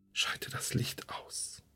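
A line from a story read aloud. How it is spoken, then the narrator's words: Whisper. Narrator (German): flüsterte ich wieder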